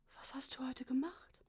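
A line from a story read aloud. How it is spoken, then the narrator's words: Father, barely audible. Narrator (German): fragte mich mein Vater mit beinahe unhörbarer Stimme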